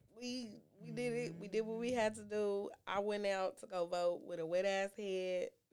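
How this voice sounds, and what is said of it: Congested, sick-sounding voice. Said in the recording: “I sound like a whole ass nigga right now, because I got sinusitis”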